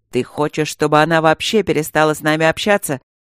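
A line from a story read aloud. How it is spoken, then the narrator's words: Growled in the face. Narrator (Russian): рычал ему в лицо Александр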